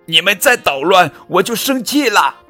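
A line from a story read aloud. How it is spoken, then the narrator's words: Shouting. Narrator (Chinese): 波比大喊道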